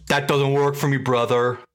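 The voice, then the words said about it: Imitates another person's voice, poorly. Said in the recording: “No, that was a terrible Bigelow. I don't know if that was a Bigelow impression.”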